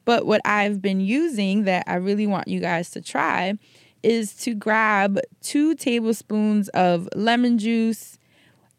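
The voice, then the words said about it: Raspy, hoarse voice. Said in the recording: “I even am developing a bit of a cough ... You can actually hear the raspiness in my voice.”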